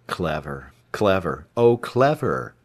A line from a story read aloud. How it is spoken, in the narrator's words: Travis said dryly